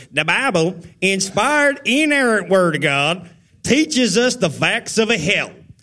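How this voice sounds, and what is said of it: Imitated hillbilly Bostonian accent. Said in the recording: “He's got like a weird combination hillbilly Bostonian accent ... let me do the voice ... That's a mean Bobby C. impersonation ... that is the nicest Bobby C. impersonation I've ever done”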